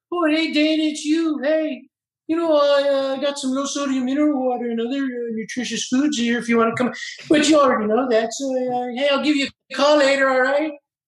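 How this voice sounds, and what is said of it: Rick Moranis impression. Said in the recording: “do the Rick Moranis voice”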